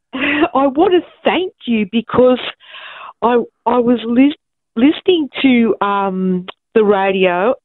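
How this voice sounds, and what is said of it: Emotional, moved voice. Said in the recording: “I'm feeling a bit emotional. ... I'm feeling so emotional.”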